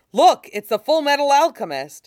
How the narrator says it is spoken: Halcrow points and yells

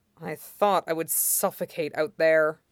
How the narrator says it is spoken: Wanyan mutters

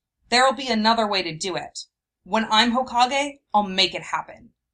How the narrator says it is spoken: he said, firmly

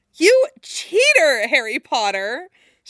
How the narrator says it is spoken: She said, still choking on laughter

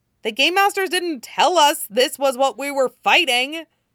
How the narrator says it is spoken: Wei Wuxian shouts back

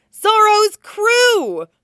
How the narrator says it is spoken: at the top of his lungs

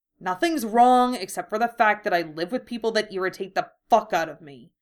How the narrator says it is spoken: he snapped

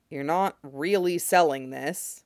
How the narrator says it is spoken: he says dryly

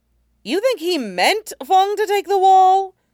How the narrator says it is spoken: Sokka yelped

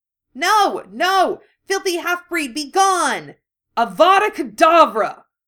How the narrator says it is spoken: Harry shouted

